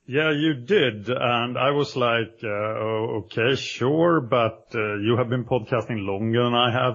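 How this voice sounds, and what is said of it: Swedish-accented English. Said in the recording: “it sounds better because of your accent ... he has an accent ... is a Swedish superstar”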